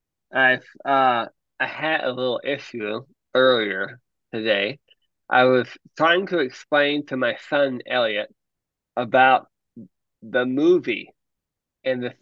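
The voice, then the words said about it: Voice sounds unusual, altered. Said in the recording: “You sound a little different.”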